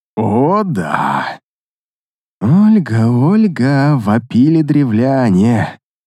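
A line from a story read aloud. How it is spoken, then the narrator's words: Purring. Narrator (Russian): Промурлыкал я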